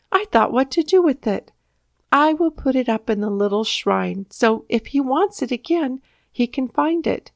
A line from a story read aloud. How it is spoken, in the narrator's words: exclaimed